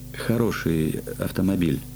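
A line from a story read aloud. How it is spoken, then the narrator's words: Uncertain, hesitant praise. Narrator (Russian): неуверенно похвалил солдат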